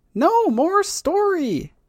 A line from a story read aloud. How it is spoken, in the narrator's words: the boy whines, kind of angrily